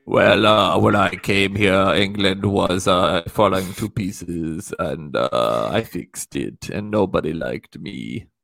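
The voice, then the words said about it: Impression of Theresa May. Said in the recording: “Former English Prime Minister Theresa May.”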